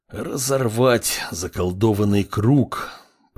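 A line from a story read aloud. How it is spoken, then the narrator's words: Cripple's gritted words. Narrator (Russian): процедил калека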